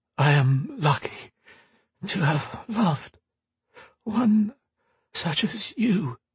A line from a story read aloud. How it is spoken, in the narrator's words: he said, his voice weak and trembling